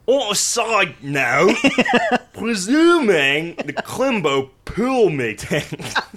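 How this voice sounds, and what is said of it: Deliberately terrible British accent. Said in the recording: “I was going for terrible... Accent... I was trying to just say everything like Michael Caine, which. More or less involved replacing all of my T's with F's.”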